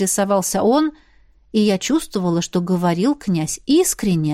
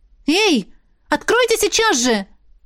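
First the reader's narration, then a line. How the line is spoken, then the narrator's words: Shouting. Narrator (Russian): выкрикнула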